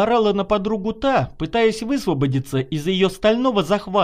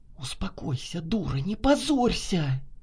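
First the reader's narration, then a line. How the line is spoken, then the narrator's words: Heated whisper in ear. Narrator (Russian): жарко зашептала Наташа на ухо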